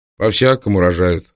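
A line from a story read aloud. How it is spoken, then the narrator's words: Plain. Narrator (Russian): сказал он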